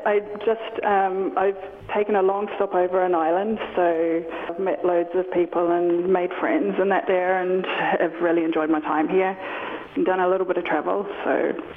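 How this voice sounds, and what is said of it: New Zealand accent. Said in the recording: “that's not an Armagh accent ... originally from New Zealand”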